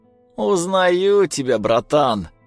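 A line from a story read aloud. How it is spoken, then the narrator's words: Laughing. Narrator (Russian): засмеялся Ленчик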